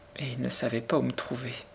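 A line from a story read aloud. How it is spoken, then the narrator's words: Murmured. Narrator (French): murmura Sarah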